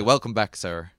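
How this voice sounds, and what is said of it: Weak attempt at American accent. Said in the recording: “How's my American accent there? ... You got to work on that American accent a bit.”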